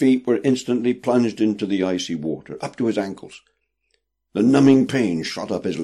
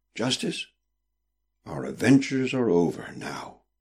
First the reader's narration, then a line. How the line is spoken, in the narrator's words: said Prudence quietly